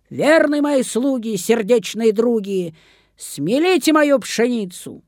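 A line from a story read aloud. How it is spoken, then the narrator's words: Shout. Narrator (Russian): крикнула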